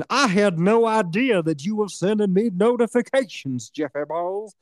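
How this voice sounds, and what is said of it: Imitation like a southern preacher. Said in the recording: “That's how Vex sounds, you know. I do a good impression. ... She's like a southern preacher.”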